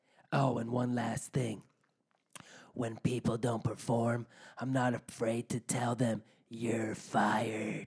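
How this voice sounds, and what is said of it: Imitates another person's voice. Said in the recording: “You had like the Donald Trump voice, and then all of a sudden you added a little spice of like Randy Savage at one point”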